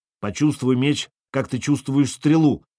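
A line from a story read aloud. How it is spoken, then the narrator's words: Shouted. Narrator (Russian): крикнул Сергей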